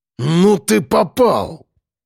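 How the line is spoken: Growl. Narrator (Russian): прорычал он

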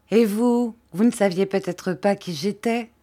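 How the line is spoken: Plain. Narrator (French): dit Émilie

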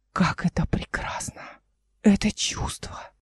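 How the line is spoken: Whispered. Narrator (Russian): Арис прошептал

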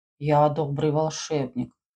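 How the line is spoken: Deep sepulchral voice. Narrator (Russian): пробасил загробным голосом Джон

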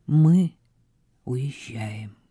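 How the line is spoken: Soft repetition. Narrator (Russian): мягко повторил он

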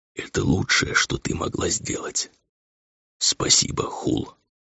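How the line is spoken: Whisper. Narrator (Russian): прошептал

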